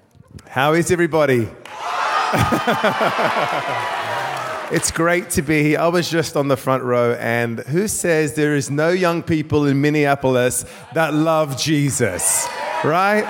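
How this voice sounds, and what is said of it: Mixed Australian and English accent. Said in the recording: “he has an Australian and an English accent. He was born in Australia, spent a decade in London. That creates the most godly accent you've ever heard in your entire life”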